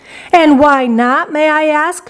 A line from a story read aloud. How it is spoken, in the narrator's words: shouted Mrs